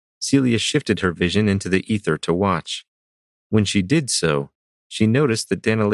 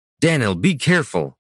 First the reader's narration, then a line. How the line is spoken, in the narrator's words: Brannis shouted